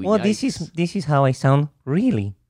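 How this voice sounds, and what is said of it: Comical put-on character voice. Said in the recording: “doing that voice ... it's just a comical voice”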